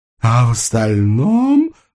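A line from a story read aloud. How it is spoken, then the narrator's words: Sweet drawn-out drawl. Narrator (Russian): сладко протянула она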